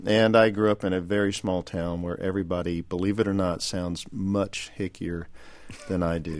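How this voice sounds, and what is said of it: Texas accent. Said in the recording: “the one with the Texas accent ... why do you have the Texas accent”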